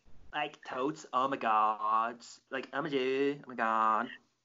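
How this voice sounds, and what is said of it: Valley girl voice. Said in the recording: “my Valley girl impression ... I'll say it like a Cali girl”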